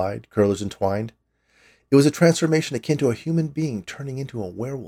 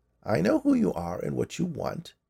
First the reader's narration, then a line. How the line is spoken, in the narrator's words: she said in a creaky voice